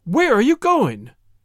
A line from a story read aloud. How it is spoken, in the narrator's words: exclaimed her parents